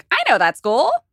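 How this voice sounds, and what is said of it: John Mulaney impression. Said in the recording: “That's my John Mulaney impression. ... Dead on.”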